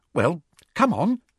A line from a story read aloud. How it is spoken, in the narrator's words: said Hermione, slightly nervously